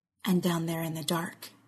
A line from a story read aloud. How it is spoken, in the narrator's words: he whispers